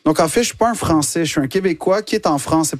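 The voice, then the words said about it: Québécois French accent. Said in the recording (French): “l'accent québécois”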